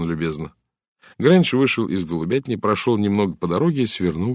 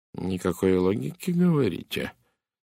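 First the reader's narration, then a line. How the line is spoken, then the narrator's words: Quiet repetition. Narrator (Russian): тихо повторил Пуаро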